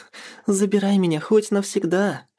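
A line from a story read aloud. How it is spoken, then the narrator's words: Joyful voice. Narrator (Russian): радостно сказала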